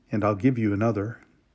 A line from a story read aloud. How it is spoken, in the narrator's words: he said gently